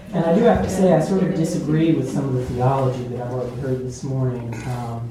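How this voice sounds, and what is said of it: Southern US accent. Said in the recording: “They hear in my accent. I'm originally from North Carolina.”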